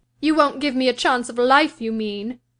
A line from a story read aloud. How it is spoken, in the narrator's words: she said sullenly